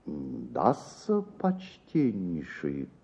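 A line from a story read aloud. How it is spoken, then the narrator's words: Pensive mumble. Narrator (Russian): пробормотал мировой в раздумье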